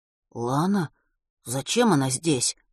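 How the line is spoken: Confused mutter. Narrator (Russian): растерянно пробормотал Ватрушкин

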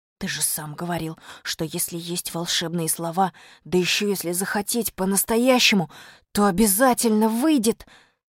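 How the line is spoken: Whisper. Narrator (Russian): сказал Костя шепотом

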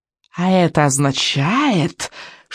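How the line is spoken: Silky witch's voice. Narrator (Russian): шелковым голосом вступила ведьма

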